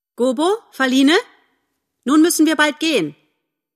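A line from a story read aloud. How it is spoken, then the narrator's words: Calling to children. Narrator (German): Tante Ena rief zu ihren Kindern her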